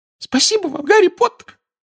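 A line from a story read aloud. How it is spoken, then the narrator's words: Squeaky voice. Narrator (Russian): пропищал Добби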